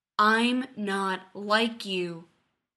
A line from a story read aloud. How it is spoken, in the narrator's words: he growls